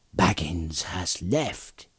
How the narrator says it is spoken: he answered in a whisper

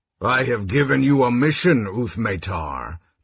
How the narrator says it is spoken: General Ariakis had told her, his voice as cold and empty as his eyes

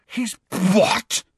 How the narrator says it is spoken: spluttered Ron, outraged

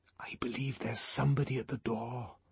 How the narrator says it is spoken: he whispered

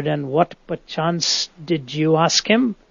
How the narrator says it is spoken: Out of sheer curiosity, muttered

